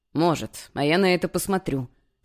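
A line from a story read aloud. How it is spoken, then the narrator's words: Snorting smirk. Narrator (Russian): хмыкнул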